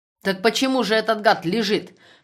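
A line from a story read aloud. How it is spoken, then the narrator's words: Heated, nearly shouting. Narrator (Russian): Все больше распаляясь, почти закричал Хромов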